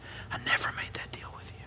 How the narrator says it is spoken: whispers back

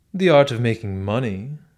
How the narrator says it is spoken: exclaimed Bazarov, with a contemptuous grin

